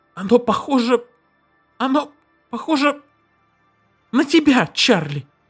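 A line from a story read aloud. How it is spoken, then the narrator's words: Hoarse shout. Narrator (Russian): хрипло выкрикнула она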